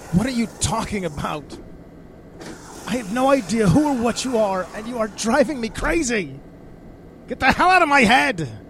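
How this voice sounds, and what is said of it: Angry shouting. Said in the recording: “sorry for shouting ... your sudden outburst”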